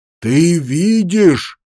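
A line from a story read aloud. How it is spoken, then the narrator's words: Very loud shout. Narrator (Russian): закричал Морл так громко, что Грен схватился за голову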